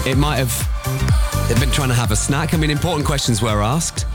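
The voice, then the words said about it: Scouse (Liverpool) accent. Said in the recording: “in my accent ... scousers ... it's the best accent in the world”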